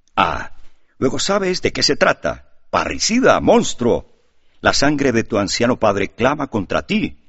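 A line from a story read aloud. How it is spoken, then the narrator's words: Commissioner roaring. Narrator (Spanish): rugió la voz del comisario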